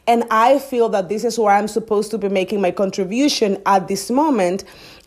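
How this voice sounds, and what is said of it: Loud speaker with foreign accent. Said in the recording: “the loud patchy, the patchy with an accent”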